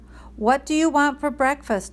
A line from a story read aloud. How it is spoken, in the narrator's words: Mom yelled